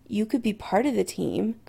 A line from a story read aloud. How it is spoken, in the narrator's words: Chris says softly, daring to hope